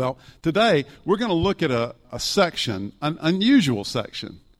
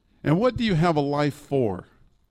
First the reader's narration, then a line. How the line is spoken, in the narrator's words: Pinocchio asks